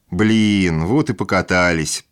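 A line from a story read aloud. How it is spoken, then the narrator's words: Drawn-out drawl. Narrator (Russian): протянул Роман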